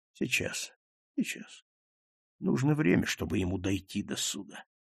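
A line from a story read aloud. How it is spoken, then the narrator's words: Repeating under breath. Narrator (Russian): Он стал повторять вполголоса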